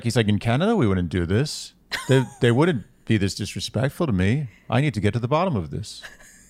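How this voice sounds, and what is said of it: Subtle put-on Canadian accent. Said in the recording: “This is a more subtle Canadian accent. ... you sound like someone from Minnesota or something.”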